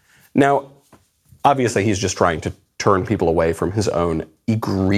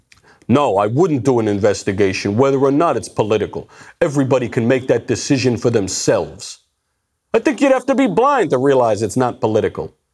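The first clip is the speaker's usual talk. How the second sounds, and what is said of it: Imitates another person's voice. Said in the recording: “I'll just have to do my Cuomo impression. Try to imagine I look like a bulldog.”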